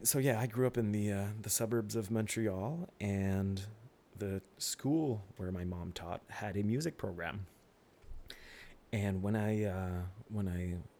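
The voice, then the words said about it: Slight Quebec French accent. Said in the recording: “me being from this area in Quebec, basically, which is predominantly French... every now and then you'll hear some accent”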